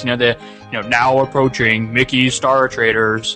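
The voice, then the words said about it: Booming theme-park announcer voice. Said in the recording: “the booming announcer voice”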